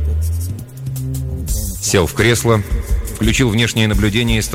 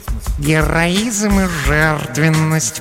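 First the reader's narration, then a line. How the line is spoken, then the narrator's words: Purring. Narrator (Russian): промурлыкала Глая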